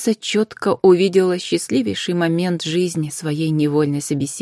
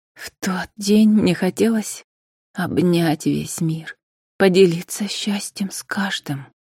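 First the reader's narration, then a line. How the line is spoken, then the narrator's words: Quiet, after deep sigh. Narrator (Russian): глубоко вздохнула и тихо добавила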